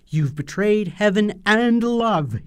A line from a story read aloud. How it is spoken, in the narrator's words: shouts, cursing the moment when he first loved her